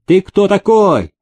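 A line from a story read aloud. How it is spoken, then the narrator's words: Shouting. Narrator (Russian): Рядом стоявший казак закричал мужику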